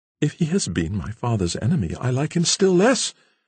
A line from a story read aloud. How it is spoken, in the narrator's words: exclaimed the now really anxious girl